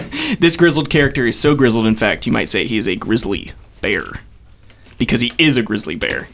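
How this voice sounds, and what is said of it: Usual voice. Nothing is said of it.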